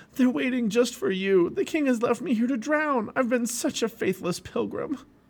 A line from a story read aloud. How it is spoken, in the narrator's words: Christian gasped and said to Hopeful